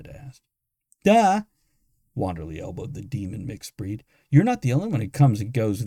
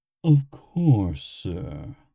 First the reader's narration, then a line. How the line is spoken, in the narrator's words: the automaton drawled